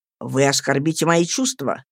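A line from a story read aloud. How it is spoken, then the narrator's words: Rather sharp. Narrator (Russian): проговорил он довольно резко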